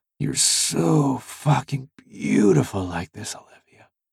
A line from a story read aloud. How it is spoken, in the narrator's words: I whispered